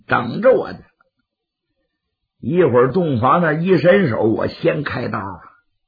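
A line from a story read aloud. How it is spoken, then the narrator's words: Through gritted teeth. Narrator (Chinese): 刘世杰暗咬牙关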